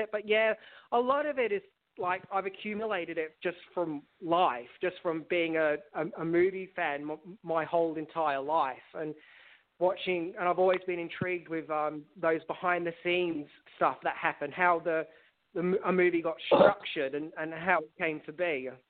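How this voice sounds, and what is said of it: Speaks with British-sounding accent. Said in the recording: “I'm sounding really British. Whenever I'm nervous, I sound really British.”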